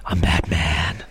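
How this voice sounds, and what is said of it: Batman character voice impression. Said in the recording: “Great impression. I definitely couldn't do a Batman voice like Bale.”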